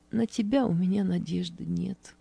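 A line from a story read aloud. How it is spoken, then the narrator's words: Quiet reply. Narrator (Russian): тихо ответила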